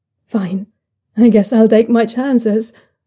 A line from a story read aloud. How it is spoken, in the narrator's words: Zhaoyunlan says with a dry laugh